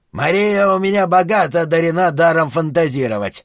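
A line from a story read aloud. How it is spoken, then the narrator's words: Angry outburst. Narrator (Russian): злобно взорвался Шелли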